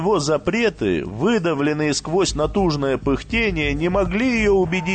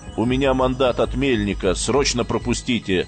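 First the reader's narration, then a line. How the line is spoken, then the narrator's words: Dry command. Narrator (Russian): Сухо приказал Гомер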